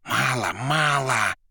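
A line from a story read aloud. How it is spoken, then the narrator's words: Whisper. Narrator (Russian): шептал Коровьев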